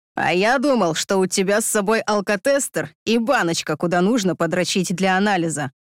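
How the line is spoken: Smirking snort. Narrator (Russian): хмыкнул он

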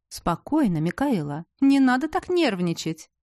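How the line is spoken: Exclaiming. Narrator (Russian): воскликнул он

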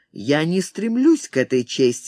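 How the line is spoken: Sharp. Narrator (Russian): резко сказал Торанага

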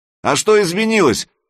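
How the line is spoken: Calling after. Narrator (Russian): крикнул Санек ей вслед

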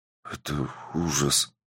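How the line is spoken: Young man mumbling, feeling sick. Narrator (Russian): пробормотал парень, которому уже стало плохо

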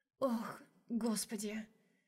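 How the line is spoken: Moaning. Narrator (Russian): Простонала Ромашка

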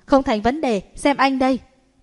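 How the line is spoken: Loud laughing. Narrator (Vietnamese): Lưu Nghĩa cười to

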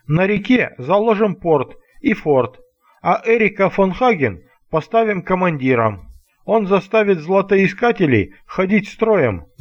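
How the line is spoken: Laughing. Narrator (Russian): засмеялся Вова

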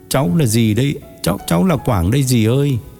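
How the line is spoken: Tearful, embarrassed and sad. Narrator (Vietnamese): Quảng mếu máo, vừa ngượng vừa buồn đáp

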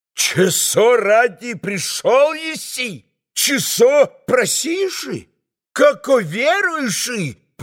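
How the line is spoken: Shouting, playing holy fool. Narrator (Russian): прокричал отец Ферапонт, юродствуя

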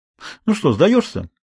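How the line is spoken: Cheerful question. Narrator (Russian): весело спросил Этьен

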